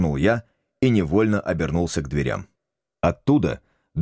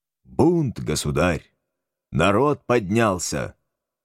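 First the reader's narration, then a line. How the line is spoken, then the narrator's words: High, solemn. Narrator (Russian): прозвучали у него особенно высоко и торжественно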